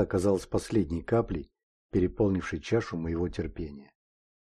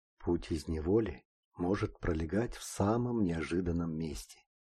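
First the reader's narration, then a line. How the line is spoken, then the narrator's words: Mysterious whisper. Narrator (Russian): загадочно прошептал незнакомец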